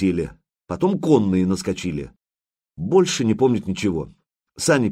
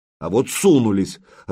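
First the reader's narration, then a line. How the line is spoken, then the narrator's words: Irritated. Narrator (Russian): раздраженно проговорил Владимир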